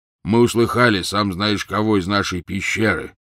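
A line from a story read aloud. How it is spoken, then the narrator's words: Gloomy reply. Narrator (Russian): мрачно ответил Хагрид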